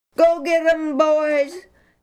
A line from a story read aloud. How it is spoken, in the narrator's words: The Israelites scrambled out of their trenches shouting